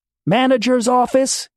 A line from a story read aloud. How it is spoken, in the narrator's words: she yelled